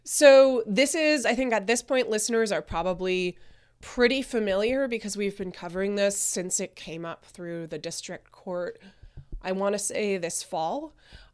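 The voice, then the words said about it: Croaky voice. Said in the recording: “apologize for my voice. I'm getting over a bit of a cold, so I'm a little croaky right now.”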